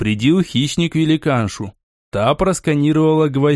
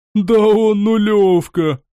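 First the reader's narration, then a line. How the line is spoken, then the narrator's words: Hooting laughter. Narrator (Russian): смеясь заухала она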